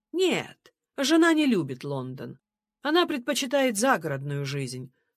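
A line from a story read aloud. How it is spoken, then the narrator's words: Cold reply. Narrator (Russian): холодно ответил Джордж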